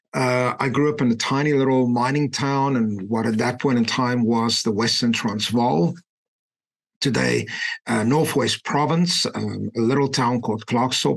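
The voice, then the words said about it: South African accent. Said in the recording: “As you can hear from my accent, I was born in South Africa. ... it's very difficult to kind of lose that accent.”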